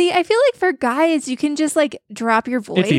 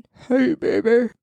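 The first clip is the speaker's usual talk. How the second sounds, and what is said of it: Deliberately low, deep voice. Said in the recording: “my best low voice impersonation ... horrifying”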